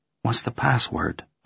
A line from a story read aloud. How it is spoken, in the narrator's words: I say softly